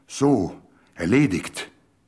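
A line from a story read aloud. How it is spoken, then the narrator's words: Loud, triumphant. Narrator (German): sagte laut triumphierend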